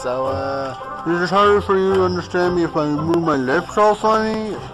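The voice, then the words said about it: Strange accent-like distorted speech. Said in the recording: “now you have an accent”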